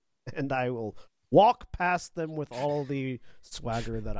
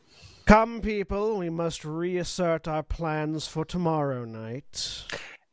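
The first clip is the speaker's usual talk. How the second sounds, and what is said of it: Loud put-on character voice. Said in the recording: “very loudly, so that I can be heard over the helicopters ... What was that voice”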